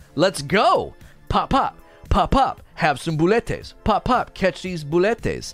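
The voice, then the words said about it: Sassy put-on Latin accent. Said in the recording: “That's my internal voice, by the way, right? ... a sassy Latin accent.”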